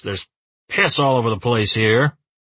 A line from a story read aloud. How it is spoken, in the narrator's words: Uwe says gruffly